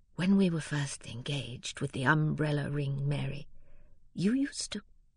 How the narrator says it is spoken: Fred, almost in a whisper, said

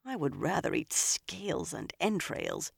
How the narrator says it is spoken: she muttered

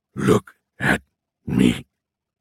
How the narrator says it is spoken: hissed in a scratchy voice

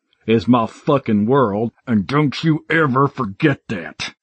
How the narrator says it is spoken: he roared through gritted teeth

